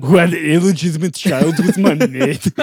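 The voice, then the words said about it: Imitates another person's voice. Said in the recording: “until we do the governor of California. Arnold Schwarzenegger ... The shitty impressions”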